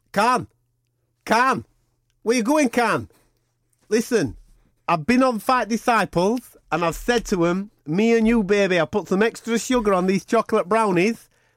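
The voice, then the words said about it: Imitates another person's voice. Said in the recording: “Can you just do this little sign-off in the style of Kell Brook? Because I love your Kell Brook accent.”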